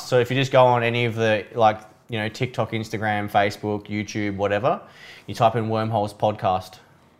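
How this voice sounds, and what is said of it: Non-American English accent. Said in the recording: “Your guys' accent ... speak American”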